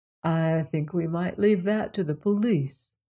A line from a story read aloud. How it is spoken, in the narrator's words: said Anthony gently